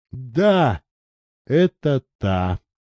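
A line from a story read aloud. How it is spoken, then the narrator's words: Quiet. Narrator (Russian): тихо ответил Андрей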